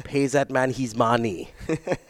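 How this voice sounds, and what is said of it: Imitates a movie character's voice. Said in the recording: “your best Rounders impression”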